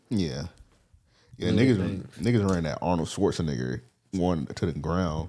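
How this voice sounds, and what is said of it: Usual voice. Nothing is said of it.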